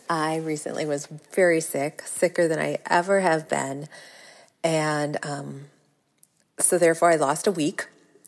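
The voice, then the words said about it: Slightly raspy, sick-sounding voice. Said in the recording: “now it's settled into my chest, so I sound a little raspy”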